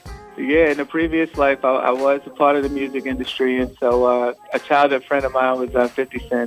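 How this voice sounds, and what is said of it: New York accent. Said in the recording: “someone from New York with my New York accent”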